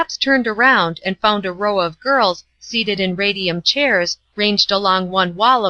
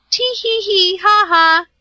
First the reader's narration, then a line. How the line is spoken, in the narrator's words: said the chief